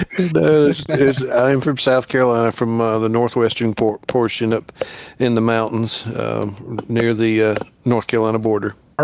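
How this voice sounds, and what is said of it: Southern US accent. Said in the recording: “I'm sure you and your listeners can't tell that I'm not from up north with my accent”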